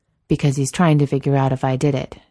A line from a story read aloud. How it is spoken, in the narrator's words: Jensen said